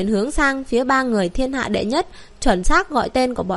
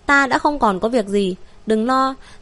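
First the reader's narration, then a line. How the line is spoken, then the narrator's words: Pale smiling. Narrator (Vietnamese): Thương Nguyệt nhợt nhạt mỉm cười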